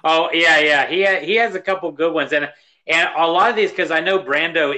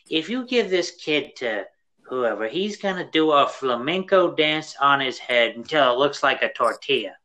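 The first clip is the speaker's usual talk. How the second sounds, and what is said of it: Imitates another person's voice. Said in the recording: “do my Brando impersonation”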